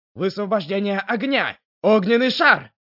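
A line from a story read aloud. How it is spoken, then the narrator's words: Sharp shout. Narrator (Russian): Сун выкрикнул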